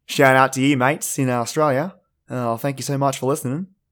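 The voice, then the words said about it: Thick put-on Australian accent. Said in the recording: “lay on the old Aussie accent, super thick”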